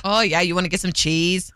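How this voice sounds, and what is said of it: Put-on Wisconsin accent. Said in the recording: “I can't do the accent very well, but it was bad... The accent... Wisconsin”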